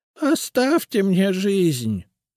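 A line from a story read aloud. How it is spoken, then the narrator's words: Hoarse, wheezing. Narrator (Russian): прохрипела Генриетта Абелардовна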